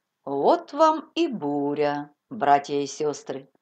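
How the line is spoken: Calm preacher. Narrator (Russian): сказал проповедник спокойным голосом

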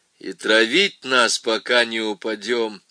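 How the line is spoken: Grim final tone. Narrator (Russian): мрачно поставил точку Гуденау

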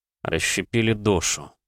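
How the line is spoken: Thoughtful mutter. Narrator (Russian): пробормотал я, пробуя слова на вкус

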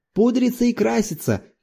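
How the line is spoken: Shouted. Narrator (Russian): крикнул другой

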